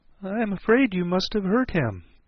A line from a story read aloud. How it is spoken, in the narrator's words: she said in a trembling voice